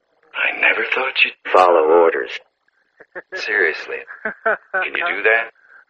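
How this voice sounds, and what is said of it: Imitates another person's voice. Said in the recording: “Who is it? Jack Nicholson? ... You don't think I sound like Jack Nicholson? Everybody else does. It's my Jack Nicholson impression. ... I think you do pretty good.”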